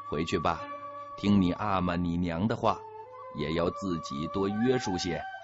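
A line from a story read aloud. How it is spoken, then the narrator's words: Mild, flat remark. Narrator (Chinese): 淡淡的一句话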